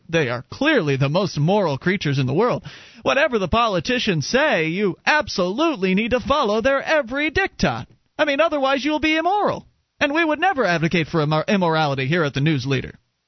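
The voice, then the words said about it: Children's-show tone, talking to kids. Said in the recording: “You almost sound like the same tone that Barney has in my kids' videos ... like they're talking to kids ... Just the intonation, not necessarily the accent”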